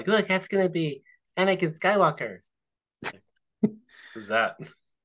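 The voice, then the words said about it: Imitates another person's voice. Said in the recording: “very, very good impersonation of your mother ... That's what she sounds like.”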